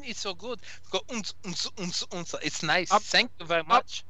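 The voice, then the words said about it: Put-on German accent. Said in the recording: “I can put on the German accent. The German accent is very good. ... I could do the nice German.”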